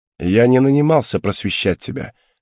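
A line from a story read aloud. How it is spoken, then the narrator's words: Scoffing grunt. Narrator (Russian): хмыкнул он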